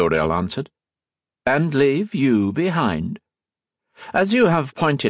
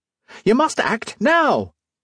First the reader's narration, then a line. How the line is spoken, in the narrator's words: she screamed through the speaking trumpet